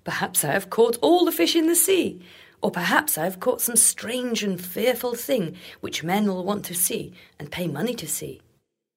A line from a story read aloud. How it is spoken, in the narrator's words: He laughed and said